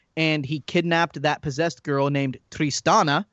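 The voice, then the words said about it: Puts on a foreign accent. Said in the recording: “do you like my little accent there?”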